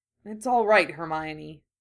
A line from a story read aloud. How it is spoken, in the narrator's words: Harry said grimly